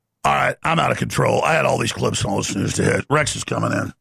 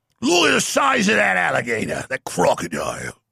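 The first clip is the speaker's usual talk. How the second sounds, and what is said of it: Weak put-on Australian accent. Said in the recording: “Can't even do the Australian accent.”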